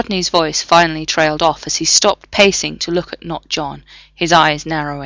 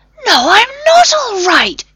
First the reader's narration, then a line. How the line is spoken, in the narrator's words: John shouted at the screen